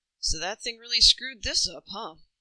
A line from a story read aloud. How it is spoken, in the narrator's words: tried to laugh